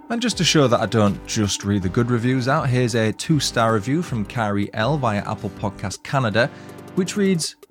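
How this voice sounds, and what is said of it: Yorkshire accent. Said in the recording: “I love the Yorkshire accent too.”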